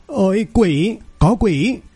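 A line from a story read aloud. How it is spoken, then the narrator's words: Terrified crying out. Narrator (Vietnamese): Mấy tên côn đồ hoảng sợ kêu lên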